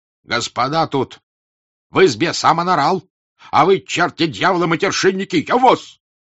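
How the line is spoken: Shout. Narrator (Russian): крикнул фельдфебель

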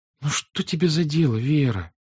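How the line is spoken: Small protective voice. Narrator (Russian): тихеньким голоском заступнически проговорила Наташа

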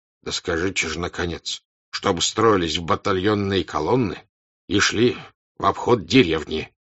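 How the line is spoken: Angry command. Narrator (Russian): сердито сказал Кутузов

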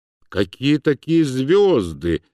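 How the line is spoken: Gloomy questioning. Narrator (Russian): мрачно расспрашивал Мышлоевский

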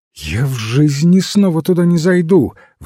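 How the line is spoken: Exclaiming. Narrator (Russian): воскликнула она

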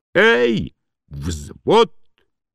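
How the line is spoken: Shouted down corridor. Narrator (Russian): крикнул в теплый коридор особняка

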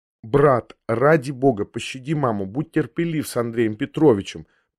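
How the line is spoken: Sister's whisper. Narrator (Russian): прошептала мне сестра

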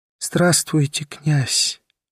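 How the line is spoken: Whispered. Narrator (Russian): прошептала она

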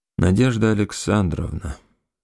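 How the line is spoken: Dejected. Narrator (Russian): сказал он уныло

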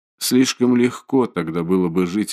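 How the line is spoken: Plain. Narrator (Russian): ответил Раскольников

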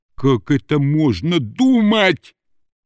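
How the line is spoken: Suppressed menacing hoarse wheeze. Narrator (Russian): Мышлоевский старался не кричать, поэтому из горла у него вылетало сипение, которое делало его еще более страшным

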